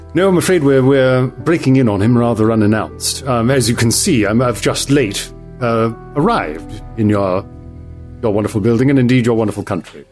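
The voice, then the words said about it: English accent. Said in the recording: “I can tell from your accent. Is it French? ... I have the distinction of being from England”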